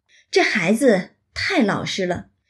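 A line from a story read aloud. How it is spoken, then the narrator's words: Sighing old woman. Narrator (Chinese): 那老太太先是叹道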